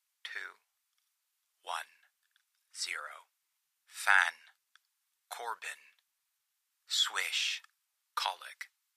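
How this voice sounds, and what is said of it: Flat, emotionless female countdown. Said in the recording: “the woman followed the countdown in her emotionless voice”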